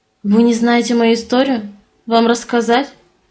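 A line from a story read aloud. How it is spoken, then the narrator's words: Wry snort. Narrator (Russian): хмыкнул Эйфи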